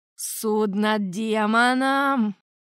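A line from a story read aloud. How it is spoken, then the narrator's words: Angry hiss. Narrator (Russian): зло зашипел великий инквизитор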